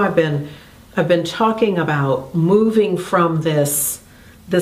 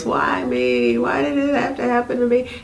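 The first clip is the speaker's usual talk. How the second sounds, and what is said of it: Fake whiny voice. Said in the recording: “my whiny voice ... fake my whiny voice”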